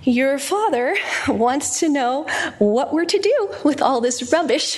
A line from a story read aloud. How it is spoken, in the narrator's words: her mother sighed over the telephone and said